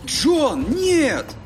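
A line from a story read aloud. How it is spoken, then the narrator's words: Exclaiming. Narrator (Russian): воскликнул Чип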